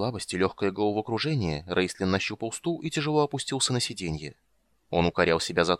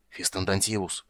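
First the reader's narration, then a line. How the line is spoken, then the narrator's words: Loud hoarse rasp. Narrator (Russian): прохрипел другой, заглушая глухой ропот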